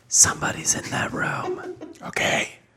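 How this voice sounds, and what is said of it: Whispering quietly. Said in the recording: “Speak up for the people on the podcast. ... Why are we whispering?”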